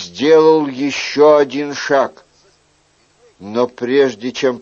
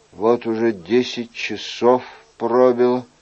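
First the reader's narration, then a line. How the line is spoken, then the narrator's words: Quiet, to himself. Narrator (Russian): тихо сказал себе Анри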